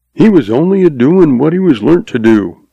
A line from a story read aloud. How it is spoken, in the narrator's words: says